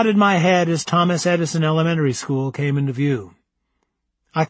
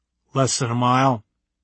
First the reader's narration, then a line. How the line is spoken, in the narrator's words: Gordon replied in a dry voice